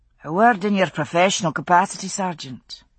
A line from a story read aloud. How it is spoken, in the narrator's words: Jamie said coolly